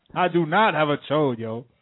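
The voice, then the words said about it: Impression of an angry Sway. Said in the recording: “Was a good impression ... An angry Sway.”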